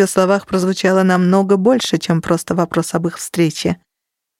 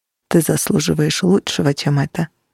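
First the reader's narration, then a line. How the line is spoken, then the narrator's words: Soft. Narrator (Russian): мягко произнес он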